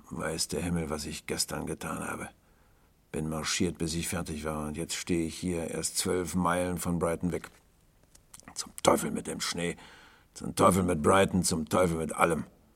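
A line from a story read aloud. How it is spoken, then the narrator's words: Grim growl. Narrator (German): knurrte er grimmig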